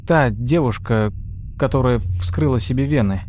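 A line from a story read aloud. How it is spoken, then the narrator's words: Hesitant, uncertain. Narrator (Russian): неуверенно начала Джорджия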